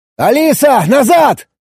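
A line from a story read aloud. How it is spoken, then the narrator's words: Shouted. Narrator (Russian): крикнул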